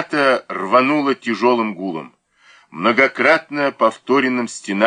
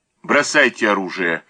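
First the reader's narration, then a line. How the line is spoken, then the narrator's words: Calm. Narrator (Russian): спокойно сказал Данилов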